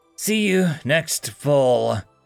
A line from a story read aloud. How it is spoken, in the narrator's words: said through gritted teeth